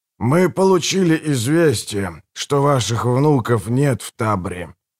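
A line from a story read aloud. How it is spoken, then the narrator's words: Muffled old man's voice. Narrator (Russian): глухо произнес старик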